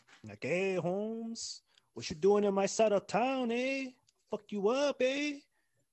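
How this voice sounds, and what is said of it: Put-on Southwestern Cholo accent. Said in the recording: “the Southwest, you know, Cholo accent.”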